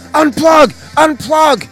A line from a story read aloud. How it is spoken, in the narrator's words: Michael yells